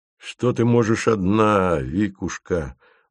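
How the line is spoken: Sighing. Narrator (Russian): вздохнул Фомин

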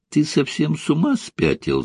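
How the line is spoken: Laughing. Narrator (Russian): засмеялась она

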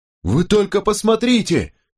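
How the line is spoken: Shouting. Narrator (Russian): крикнул Чарльз Бест

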